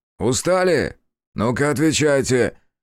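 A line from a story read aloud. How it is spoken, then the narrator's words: Barking. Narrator (Russian): рявкнул социальный работник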